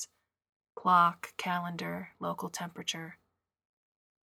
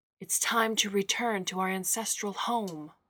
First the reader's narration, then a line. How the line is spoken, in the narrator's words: shouted